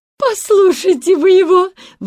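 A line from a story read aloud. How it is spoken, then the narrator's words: Joyful, frightened exclamation. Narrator (Russian): воскликнула тетушка Бринкер, радуясь, но, надо признать, и пугаясь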